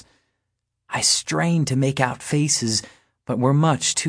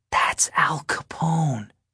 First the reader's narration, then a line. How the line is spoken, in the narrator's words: I whispered to Natalie